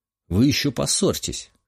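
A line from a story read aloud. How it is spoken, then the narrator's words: Snorting remark. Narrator (Russian): хмыкнул я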